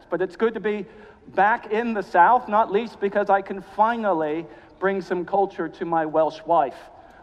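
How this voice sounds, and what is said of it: Mid-Atlantic accent. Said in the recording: “you may detect from my accent that I'm not Welsh ... sort of a mid-Atlantic accent”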